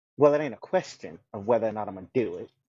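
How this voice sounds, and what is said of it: Southern drawl accent. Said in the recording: “This is the accent. It's not really an accent. It's just a different way of talking. ... there's an accent there. ... There's a southern drawl there. ... There's an absolute accent there.”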